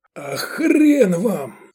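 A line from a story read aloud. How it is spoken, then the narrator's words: Breathed out. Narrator (Russian): выдохнул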